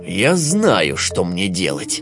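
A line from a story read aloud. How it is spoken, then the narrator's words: Malicious smirking wolf. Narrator (Russian): злобно ухмыльнулся волк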